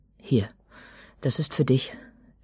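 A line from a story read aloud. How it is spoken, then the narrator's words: Nearly stuttering. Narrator (German): stotterte jetzt beinahe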